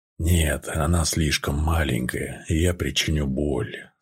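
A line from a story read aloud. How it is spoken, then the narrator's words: Anguished whisper. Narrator (Russian): с надрывом прошептал Намир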